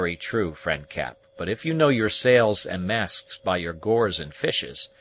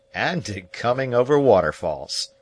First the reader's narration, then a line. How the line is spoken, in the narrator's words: said Pathfinder, laughing in his silent but hearty manner